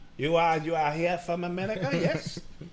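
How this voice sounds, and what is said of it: Mock Swedish accent. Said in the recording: “I don't even know if that's a Swedish accent.”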